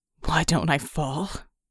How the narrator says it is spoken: Red asked, his voice ragged and hoarse

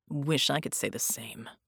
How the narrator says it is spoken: Red growled

